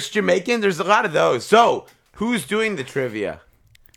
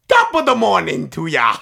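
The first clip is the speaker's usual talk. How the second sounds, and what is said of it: Poor Irish accent sounding Jamaican. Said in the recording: “I'm not really good at Irish accent. ... In an Irish accent? ... It sounded Jamaican. ... And it was Jamaican”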